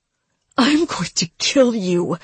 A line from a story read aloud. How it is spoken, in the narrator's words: she snarled